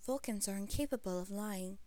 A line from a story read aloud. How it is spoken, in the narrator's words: he said calmly